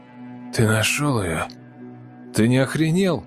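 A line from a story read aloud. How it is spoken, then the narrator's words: Hoarse, into phone. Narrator (Russian): Захрипел я в трубку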